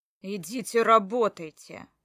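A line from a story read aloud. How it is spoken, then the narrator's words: Growled. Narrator (Russian): прорычал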